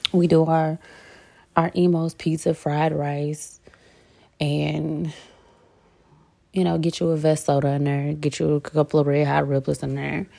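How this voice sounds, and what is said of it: St. Louis accent. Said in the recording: “my accent picks up a little bit more when I start talking about St. Louis”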